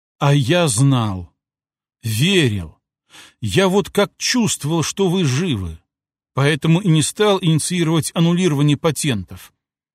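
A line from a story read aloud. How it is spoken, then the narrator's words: Old man, heartfelt, noisy sigh. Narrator (Russian): Старый адвокат шумно вздохнул, после чего прочувственно произнес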